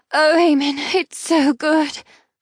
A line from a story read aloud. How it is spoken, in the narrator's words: I moan